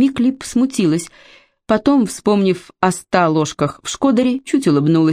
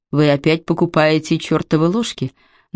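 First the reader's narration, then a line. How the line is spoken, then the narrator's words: Mocking. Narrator (Russian): насмешливо заметил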